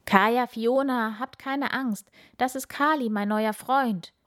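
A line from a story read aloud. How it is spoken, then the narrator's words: Enthusiastic call. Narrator (German): ruft Bauer Pop ihnen begeistert zu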